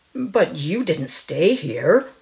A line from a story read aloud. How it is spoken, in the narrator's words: exclaimed his visitor